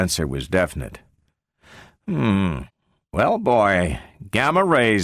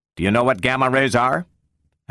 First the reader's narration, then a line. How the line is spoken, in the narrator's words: asked Bogert sharply